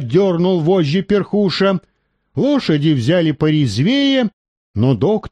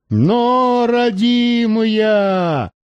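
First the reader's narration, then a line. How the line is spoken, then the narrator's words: Shouted. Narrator (Russian): крикнул Перхуша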